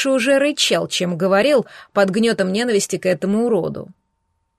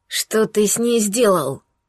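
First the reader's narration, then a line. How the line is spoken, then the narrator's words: Hoarse wheeze. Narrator (Russian): Прохрипел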